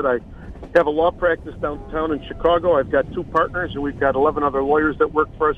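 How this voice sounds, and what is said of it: Chicago accent. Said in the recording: “we hear that great Chicago accent ... I've been a lifetime Chicagoan. As you can tell, I've tried to lose this accent for 60 years”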